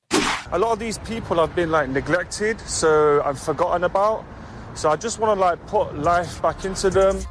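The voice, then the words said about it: Speaks with a noticeable accent. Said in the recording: “despite his accent, he's actually from here in Brisbane”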